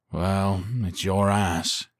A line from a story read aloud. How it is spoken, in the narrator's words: he drawled